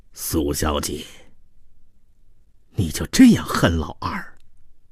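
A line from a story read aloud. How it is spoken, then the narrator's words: Sighing. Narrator (Chinese): 叹道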